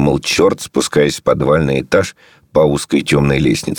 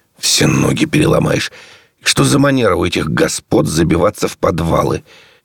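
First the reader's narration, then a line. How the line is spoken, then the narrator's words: Grumbling. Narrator (Russian): Черт ворчал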